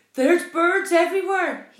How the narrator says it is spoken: cried

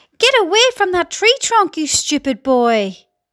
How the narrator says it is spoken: Aunt Spiker yelled

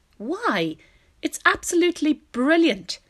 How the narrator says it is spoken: cried the old green grasshopper

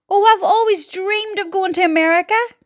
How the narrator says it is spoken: cried the centipede

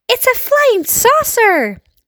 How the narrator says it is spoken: they shouted

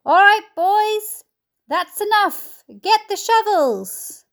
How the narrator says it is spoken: they heard him shouting

